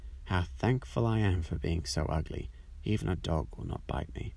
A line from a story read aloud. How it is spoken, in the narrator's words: sighed the duckling